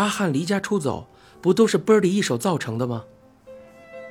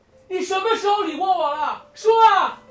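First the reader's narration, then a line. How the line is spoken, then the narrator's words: Shouting over waves. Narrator (Chinese): 海浪的声音很大，阿汉大声道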